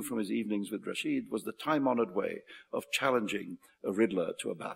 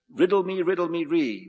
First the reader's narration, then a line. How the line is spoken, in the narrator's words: Luca yelled at the top of his voice